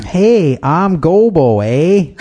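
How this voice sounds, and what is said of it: Put-on Canadian accent. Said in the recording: “He sounded so Canadian.”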